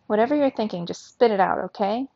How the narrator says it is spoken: Ondina snapped, her smooth, sarcastic exterior gone, her nerves exposed

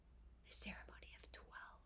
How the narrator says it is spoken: she whispered in an awed voice

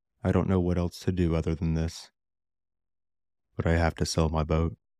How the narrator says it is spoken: He said sadly to himself

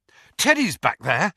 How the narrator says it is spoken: he said breathlessly

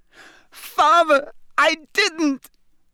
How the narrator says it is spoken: shrieked the boy in chains below

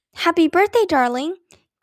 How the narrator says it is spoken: cried Aunt Beatrice

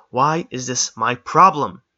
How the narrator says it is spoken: He yelled, his voice echoing around the chamber

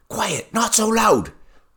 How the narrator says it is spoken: whispered Nancy

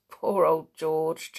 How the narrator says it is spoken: chuckled Dick

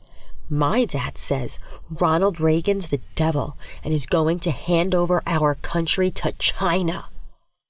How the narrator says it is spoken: leans in close, whispering

